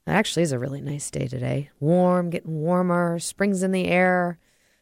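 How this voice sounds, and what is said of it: Voice sounding a little different. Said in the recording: “my voice sounds a little different ... I'm enjoying some seasonal allergies right now.”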